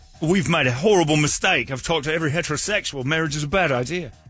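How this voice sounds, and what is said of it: Put-on Australian accent. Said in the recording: “In that Australian accent? ... Yeah,”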